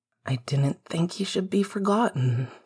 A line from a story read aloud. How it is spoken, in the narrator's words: Sirius said quietly